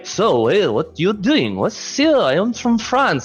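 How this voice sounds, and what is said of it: Mock French accent. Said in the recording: “Hate the French accent.”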